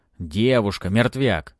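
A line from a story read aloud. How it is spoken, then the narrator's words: Barked. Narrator (Russian): рявкнул Урмил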